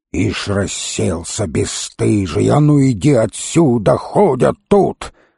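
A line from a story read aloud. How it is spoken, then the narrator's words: Old woman's suspicious hiss. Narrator (Russian): Старуха зашипела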